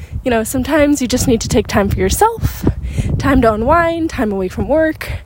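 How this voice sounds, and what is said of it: Breathless, short of breath. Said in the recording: “I sound like I'm out of breath. ... going through a wave of sinus infections and can't really catch my breath”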